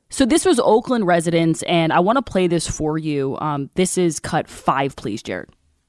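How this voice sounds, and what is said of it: Wavering voice with a cold. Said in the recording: “my voice is like up and down today. I have I have a little bit of a cold”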